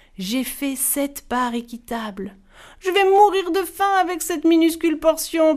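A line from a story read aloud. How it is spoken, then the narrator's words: Youngest one whining. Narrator (French): pleurnichait le plus jeune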